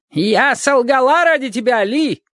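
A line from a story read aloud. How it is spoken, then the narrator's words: Shouting. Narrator (Russian): кричала Маргарита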